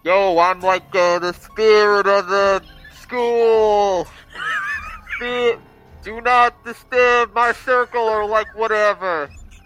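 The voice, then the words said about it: Spooky ghost voice. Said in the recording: “in my spookiest voice”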